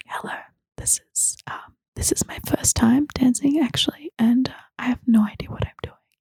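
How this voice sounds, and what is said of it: Whispering. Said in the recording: “whispering”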